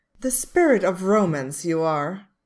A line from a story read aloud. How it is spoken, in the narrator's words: Darcy sighs